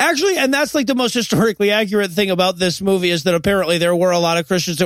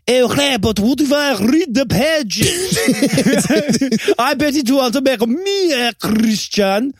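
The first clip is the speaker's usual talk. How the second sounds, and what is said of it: Borat-style accent. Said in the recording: “let me do the accent... Borat nailed it... I actually only do one accent”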